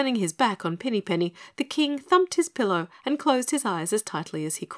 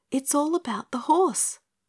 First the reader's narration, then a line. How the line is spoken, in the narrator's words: whispered Pinny Penny